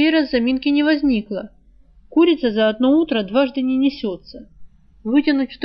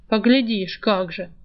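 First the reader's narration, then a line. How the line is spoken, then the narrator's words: Gloomy grumble. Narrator (Russian): мрачно проворчал кто-то из мужиков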